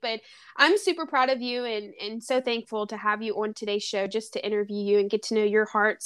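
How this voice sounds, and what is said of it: Southern American accent. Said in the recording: “another Southern babe ... you got an accent. I'm like, yes, I do.”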